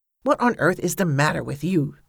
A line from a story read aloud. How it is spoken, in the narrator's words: Cornelia hissed